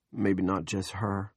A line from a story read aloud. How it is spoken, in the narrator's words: Big Jim said